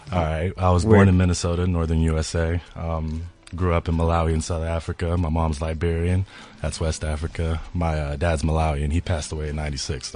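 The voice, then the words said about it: American accent. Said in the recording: “An American accent with French background”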